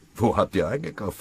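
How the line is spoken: Plain. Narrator (German): fragte Pfennigbauer

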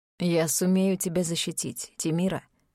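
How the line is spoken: Calm, confident. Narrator (Russian): спокойно произнес Минейр Милар

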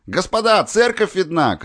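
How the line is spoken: Shouted. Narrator (Russian): крикнул Глеб

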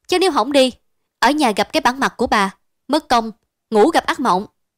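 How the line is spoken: Angry voice. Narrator (Vietnamese): Tâm nói với giọng đầy tức giận

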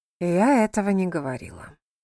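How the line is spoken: Gentle objection. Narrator (Russian): мягко возразила миссис Эрбутнот

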